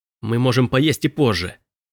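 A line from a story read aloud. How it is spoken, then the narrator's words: Hissed. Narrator (Russian): прошипел Робби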